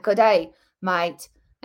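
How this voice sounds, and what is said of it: Poor Australian accent drifting British. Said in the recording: “I'm terrible at an Australian accent. I try it, and then it suddenly becomes English when I try it... And then I sound like a British person.”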